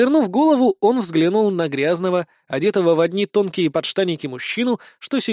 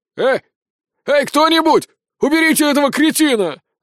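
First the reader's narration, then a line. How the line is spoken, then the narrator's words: Prisoner screaming at full volume. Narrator (Russian): заорал во всю глотку заключенный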